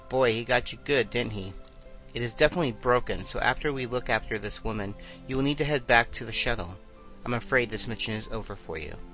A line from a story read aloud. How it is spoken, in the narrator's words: Peterson looked at Lieutenant Witko's nose and exclaimed